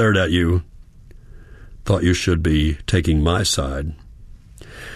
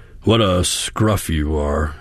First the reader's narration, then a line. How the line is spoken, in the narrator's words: he grunted